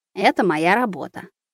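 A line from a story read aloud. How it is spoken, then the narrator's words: Very quiet whisper. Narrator (Russian): она шепчет так тихо, что еле разбираю слова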